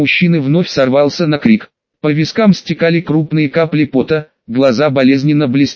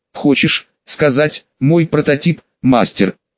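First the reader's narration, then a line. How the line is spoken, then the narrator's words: Angry growl. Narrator (Russian): С необъяснимой злостью прорычал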